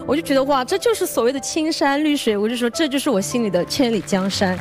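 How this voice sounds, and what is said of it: Slight regional accent in speech. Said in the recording (Chinese): “有一些可爱的口误啊、口音啊 ... 她唱歌的时候一点口音都没有的，但说话的时候稍微有一点点。”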